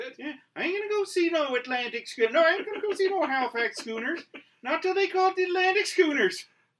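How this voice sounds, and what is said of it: Put-on Nova Scotia accent. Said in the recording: “used to be able to do a fairly good Scotia accent. Now I can't do it.”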